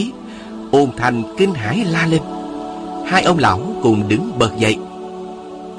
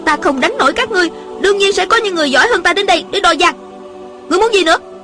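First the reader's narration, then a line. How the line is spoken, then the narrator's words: Angry young woman. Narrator (Vietnamese): Thiếu nữ giận dữ nói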